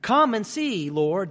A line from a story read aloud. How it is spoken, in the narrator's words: they replied